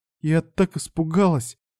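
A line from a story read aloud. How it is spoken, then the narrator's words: Choked sobbing. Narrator (Russian): Сдавленно всхлипывала она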